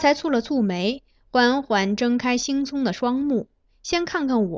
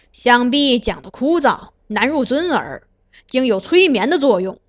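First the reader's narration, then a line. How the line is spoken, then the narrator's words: Angry, cold. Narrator (Chinese): 华学正含怒冷道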